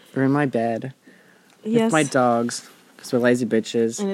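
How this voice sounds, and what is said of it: Usual voice. Nothing is said of it.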